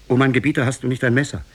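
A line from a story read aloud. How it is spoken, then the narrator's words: Called out. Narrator (German): rief ihm zu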